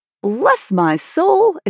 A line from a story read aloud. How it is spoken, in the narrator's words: exclaimed Mr